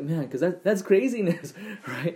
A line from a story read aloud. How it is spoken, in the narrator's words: He chuckled